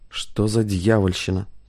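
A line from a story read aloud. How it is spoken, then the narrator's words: Muttered. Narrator (Russian): пробормотал Хейно Янович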